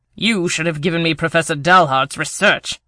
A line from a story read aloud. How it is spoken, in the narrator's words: Rivera snapped